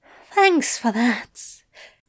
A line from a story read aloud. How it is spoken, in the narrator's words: wheezed, smiling when they broke for air